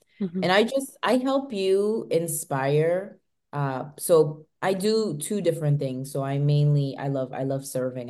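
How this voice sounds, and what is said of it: Very heavy American accent. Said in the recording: “I have a very heavy American accent”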